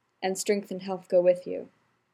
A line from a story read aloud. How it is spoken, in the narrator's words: The surrounding villagers echoed her final phrase with a murmur of